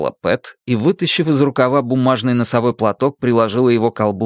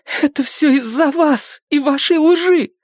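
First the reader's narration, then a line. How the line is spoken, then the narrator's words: Tearful. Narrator (Russian): ответила Мэнди сквозь слезы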